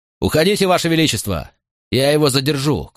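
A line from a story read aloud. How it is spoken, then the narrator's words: Shout. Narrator (Russian): крикнул я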